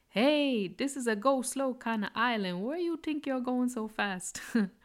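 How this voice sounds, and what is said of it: Put-on Caribbean accent. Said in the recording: “Sorry for the accent. I'm trying my best.”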